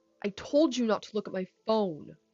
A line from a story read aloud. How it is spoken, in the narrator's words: Seth snapped